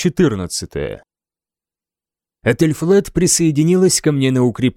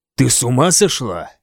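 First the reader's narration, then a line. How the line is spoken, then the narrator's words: Angry question. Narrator (Russian): сердито спросил я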